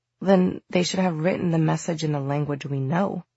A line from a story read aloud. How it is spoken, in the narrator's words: Emma muttered